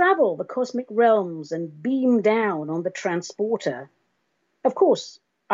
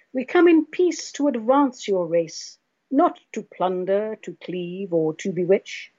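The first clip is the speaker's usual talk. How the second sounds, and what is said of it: Deep, rich contralto voice. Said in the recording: “in my cosmic contralto voice, so deep, so rich.”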